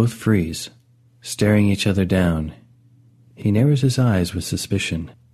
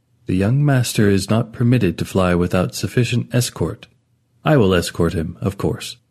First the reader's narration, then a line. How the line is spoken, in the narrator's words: Stiffly, replies